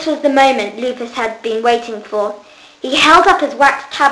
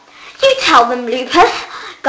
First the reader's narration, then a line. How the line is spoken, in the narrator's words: gasped Jonathan